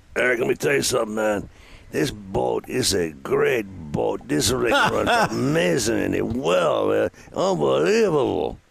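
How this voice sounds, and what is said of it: Imitates another person's voice. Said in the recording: “that's a good impression ... I thought it was pretty good.”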